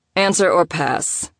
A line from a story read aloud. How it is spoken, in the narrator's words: Reed inserted, his tone droll